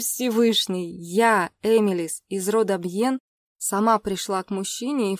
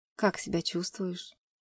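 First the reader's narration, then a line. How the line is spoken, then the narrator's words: Quiet question. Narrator (Russian): спросил тихо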